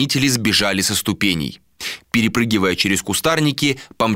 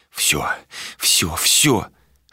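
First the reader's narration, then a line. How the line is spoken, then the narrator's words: Whispering. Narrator (Russian): шептал Адер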